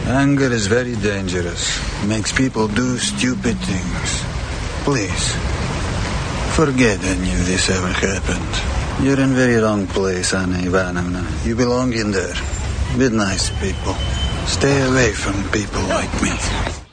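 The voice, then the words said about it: Crazy mobster accent. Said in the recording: “doing the crazy mobster accent”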